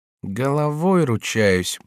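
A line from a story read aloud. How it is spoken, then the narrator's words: Grumble. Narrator (Russian): проворчал он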